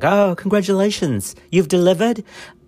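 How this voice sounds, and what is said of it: Attempted British accent, Hispanic-tinged. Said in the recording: “That's my British. Is that British? I don't know what that is. ... Boy, that's not even British. That's British with a Hispanic accent.”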